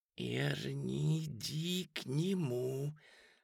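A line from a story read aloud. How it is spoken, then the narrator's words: Hissing. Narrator (Russian): Бет уже шипела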